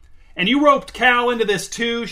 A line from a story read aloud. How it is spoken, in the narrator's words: shouted Uncle Dweeb